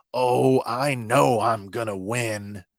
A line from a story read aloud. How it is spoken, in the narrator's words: Cid hisses back